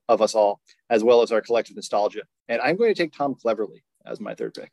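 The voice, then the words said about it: English accent. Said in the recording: “English indignation ... a cohort uh, in which I am a part, given my accent”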